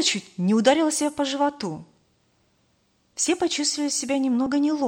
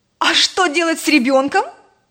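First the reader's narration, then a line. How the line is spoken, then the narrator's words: Nearly shouting. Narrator (Russian): чуть не закричала Роза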